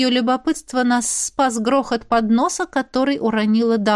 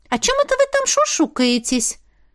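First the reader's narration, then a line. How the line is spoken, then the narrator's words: Indignant interruption. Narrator (Russian): Возмущенно вклинилась Эва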